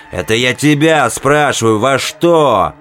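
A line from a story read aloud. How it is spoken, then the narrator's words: Chaplain barking. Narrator (Russian): Рявкнул капеллан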